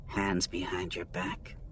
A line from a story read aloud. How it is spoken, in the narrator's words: she said, her voice low enough that he barely heard it